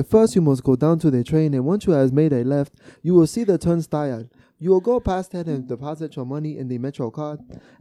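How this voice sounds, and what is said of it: Imitated African accent. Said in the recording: “you had to do the accent though ... she was African”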